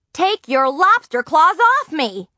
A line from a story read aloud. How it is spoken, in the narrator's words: Nancy yelled